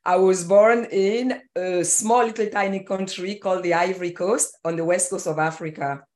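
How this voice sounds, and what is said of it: Foreign, non-American accent. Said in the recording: “from the accent, you know that I was not born in Seattle, Washington”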